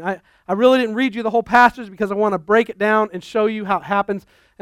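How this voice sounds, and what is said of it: Talking very fast. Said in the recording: “sorry I'm talking so fast”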